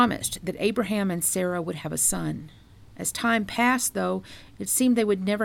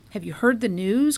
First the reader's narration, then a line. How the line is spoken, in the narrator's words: cried the messenger